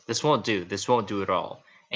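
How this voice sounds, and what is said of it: Thick put-on British accent. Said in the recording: “In a thick British accent”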